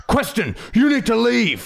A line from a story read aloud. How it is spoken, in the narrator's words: shouted my father